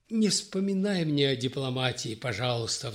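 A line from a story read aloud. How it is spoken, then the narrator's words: Regretful sigh. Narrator (Russian): вздохнул с сожалением Сергей Григорьевич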